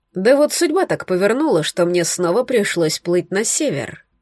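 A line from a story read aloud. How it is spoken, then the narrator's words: Plain. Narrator (Russian): ответил колдун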